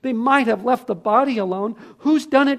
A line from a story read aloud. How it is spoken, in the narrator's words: cried Susan